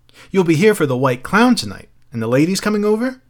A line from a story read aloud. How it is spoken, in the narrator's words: cried Mildred